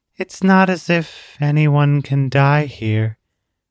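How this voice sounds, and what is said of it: Almost monotone, weary voice. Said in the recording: “Her voice sounded almost monotone. Not robotic, just weary.”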